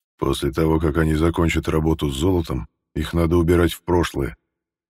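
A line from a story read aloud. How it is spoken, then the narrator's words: Gloomy. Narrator (Russian): мрачно сказал Михаил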